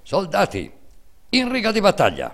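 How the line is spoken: Stern military command shout. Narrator (Italian): atteggiandosi a giudice severo e inesorabile, gridando in tono di comando militare

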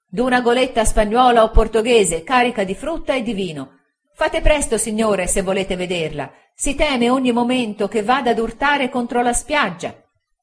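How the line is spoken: Excited shouting. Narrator (Italian): Sentii quella voce eccitata discender la scala gridando

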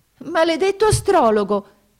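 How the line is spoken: Princess exclaiming. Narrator (Italian): esclamò la principessa

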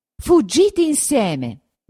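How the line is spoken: Shouted. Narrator (Italian): gridò

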